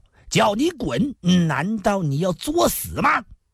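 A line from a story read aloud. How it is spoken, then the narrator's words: Angry cursing. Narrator (Chinese): 那麻子竟又怒骂道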